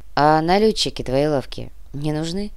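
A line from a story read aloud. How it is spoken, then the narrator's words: Sigh. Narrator (Russian): Томба вздохнул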